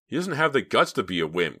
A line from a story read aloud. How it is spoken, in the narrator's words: cried David